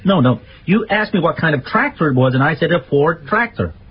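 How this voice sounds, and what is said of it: Put-on American accent. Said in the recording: “I do like your American accent”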